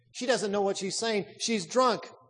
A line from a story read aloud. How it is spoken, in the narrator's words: one rowdy exclaimed